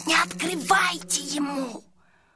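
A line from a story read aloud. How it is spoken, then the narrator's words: Hiss. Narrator (Russian): Сашка зашипел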